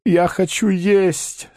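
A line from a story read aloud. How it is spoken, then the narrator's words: Moaning. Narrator (Russian): стонал Паниковский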